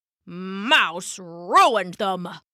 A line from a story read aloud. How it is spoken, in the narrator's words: Papa grumbled